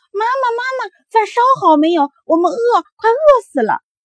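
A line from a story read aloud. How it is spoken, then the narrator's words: Noisy clamoring. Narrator (Chinese): 一回家来就嚷嚷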